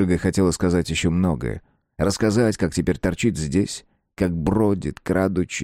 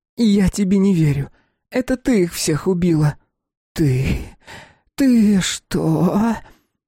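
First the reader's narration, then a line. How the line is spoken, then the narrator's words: Forced out with effort. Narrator (Russian): Наконец сумела выдавить Шишига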